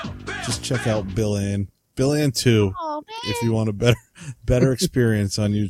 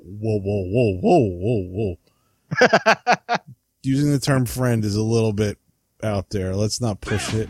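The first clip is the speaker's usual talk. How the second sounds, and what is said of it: Imitates another person's voice. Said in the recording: “my best Bernie Sanders impression”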